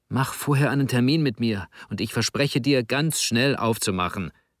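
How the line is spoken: Hissed. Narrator (German): zischte Juwi

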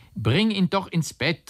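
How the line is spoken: Called out. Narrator (German): rief er Leni zu

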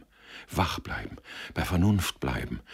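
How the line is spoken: Murmured. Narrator (German): murmelte er

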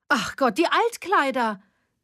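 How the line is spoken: Sudden exclamation. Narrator (German): rief Evelyn plötzlich

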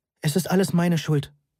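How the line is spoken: Plain. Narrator (German): sagte ich

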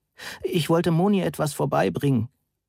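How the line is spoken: Sobbing. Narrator (German): schluchzte

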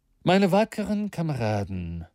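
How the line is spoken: Calm voice. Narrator (German): sagte er mit ruhiger Stimme

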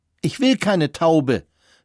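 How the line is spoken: Shouting, beside himself. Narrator (German): rief Christian außer sich

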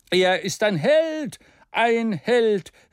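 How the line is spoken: Shouting in varied tones. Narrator (German): rief er in allen Tonarten

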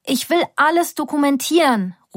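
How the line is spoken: Calling out. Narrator (German): ruft Nika mir zu

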